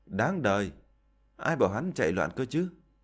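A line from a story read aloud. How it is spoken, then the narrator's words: Sighing. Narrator (Vietnamese): Liễu Tuyết thở dài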